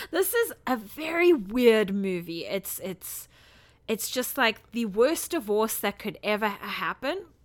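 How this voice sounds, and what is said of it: Slightly squeaky voice. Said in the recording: “my voice is a little squeaky”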